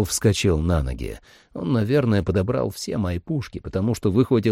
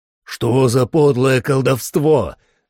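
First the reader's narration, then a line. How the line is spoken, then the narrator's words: Exclaiming. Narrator (Russian): воскликнул он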